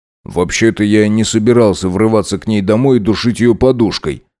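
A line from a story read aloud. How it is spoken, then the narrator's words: Amused snort. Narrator (Russian): хмыкнул Макс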